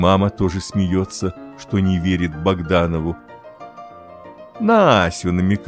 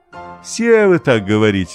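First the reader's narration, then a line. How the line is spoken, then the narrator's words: Laughing. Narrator (Russian): засмеялся папа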